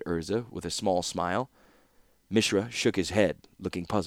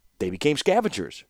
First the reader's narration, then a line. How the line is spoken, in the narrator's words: retorted Mishra triumphantly